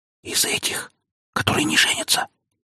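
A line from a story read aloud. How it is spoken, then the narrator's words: Whisper in the ear. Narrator (Russian): она шепотом произнесла мне на ухо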